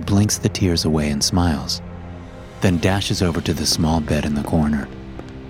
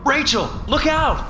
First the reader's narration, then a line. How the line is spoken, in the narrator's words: My shouts